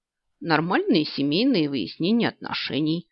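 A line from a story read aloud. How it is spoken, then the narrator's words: Knowing snort. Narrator (Russian): сознанием дела фыркнул Стас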